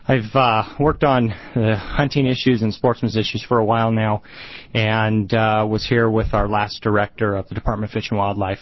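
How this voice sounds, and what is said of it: Out of breath, breathless speech. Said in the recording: “I'm a little out of breath because I ran down here.”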